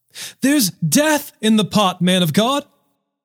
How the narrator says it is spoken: they cried out

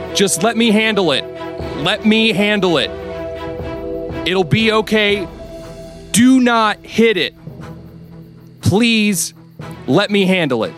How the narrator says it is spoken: Dimitri will shout

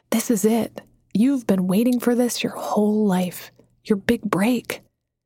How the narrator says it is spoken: That same inner voice had whispered

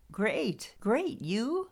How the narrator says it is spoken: Her voice had a croaky vibe

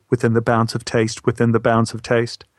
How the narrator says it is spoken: Rob interjected quickly

